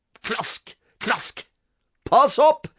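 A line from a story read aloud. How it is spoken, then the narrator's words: Father screaming. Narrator (Norwegian): skrek pappa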